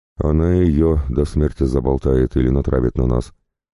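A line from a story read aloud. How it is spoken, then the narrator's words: Heavy sigh. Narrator (Russian): тяжело вздохнул Денис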